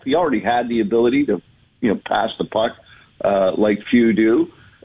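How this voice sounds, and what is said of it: Polished radio announcer voice. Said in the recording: “radio voice”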